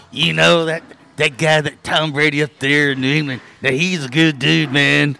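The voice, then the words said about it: Imitates another person's voice. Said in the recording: “my John Gruden imitation ... like Tommy Chong”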